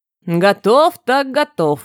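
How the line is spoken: Snorting. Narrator (Russian): хмыкнул Рорик

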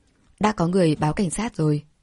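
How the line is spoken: Cold. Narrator (Vietnamese): Anh lạnh lùng nói

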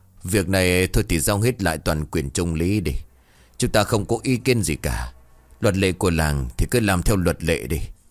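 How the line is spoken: Resigned sighing old man. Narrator (Vietnamese): Ông cụ Nghị lắc đầu thở dài, ông bảo

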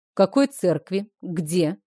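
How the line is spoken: Stern teacher's question. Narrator (Russian): строго спросил законоучитель

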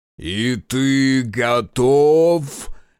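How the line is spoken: Harsh bark. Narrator (Russian): Рявкнул на него раздор

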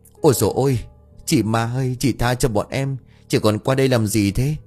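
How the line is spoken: Trembling stammer. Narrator (Vietnamese): Khá cả người lập tức run rẩy, lắp bắp

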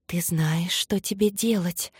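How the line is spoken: Thousands of voices whispering. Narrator (Russian): зашептали тысячи голосов разом

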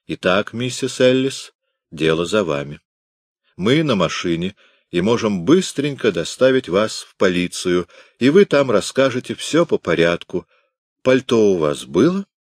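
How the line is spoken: Firm but polite. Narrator (Russian): добавил твердым, хотя и достаточно вежливым тоном

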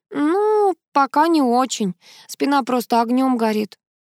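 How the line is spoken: Sighing. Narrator (Russian): вздохнула Нина

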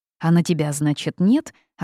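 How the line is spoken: Young woman snapping back. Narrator (Russian): огрызнулась девушка

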